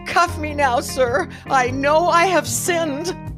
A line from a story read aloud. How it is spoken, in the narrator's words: said dramatically